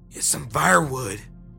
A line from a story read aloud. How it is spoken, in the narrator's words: he said in his forced tone